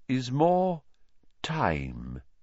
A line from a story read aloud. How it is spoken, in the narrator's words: said Dumbledore slowly